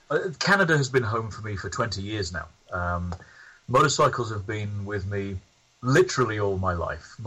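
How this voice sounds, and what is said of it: English accent. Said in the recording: “originally I'm from England, as you can probably tell by the accent ... although I don't think I've lost it that much”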